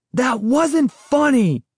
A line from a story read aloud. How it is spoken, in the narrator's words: shouted angrily